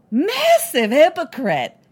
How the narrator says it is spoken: General Skywalker tells them himself, very loudly and extremely inebriated

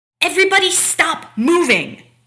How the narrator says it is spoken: Taylor yells, finally, her patience obviously long gone

